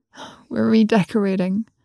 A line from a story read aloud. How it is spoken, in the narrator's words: said in a weak voice